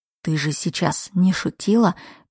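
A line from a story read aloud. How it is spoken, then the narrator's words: Whisper. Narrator (Russian): прошептал он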